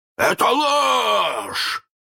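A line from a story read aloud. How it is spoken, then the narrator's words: Hoarse roar. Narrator (Russian): хрипко взревел Крюк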